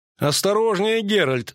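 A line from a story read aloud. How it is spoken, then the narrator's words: Laughing. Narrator (Russian): засмеялся Лютик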